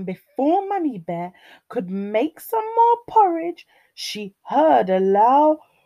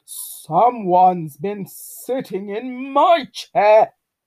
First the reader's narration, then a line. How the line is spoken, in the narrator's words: growled Daddy Bear